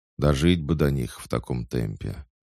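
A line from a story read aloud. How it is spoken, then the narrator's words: Gloomy young man. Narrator (Russian): мрачно сказал парень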